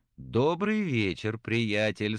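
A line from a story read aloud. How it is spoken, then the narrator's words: Cheerful. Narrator (Russian): сказал весело Отто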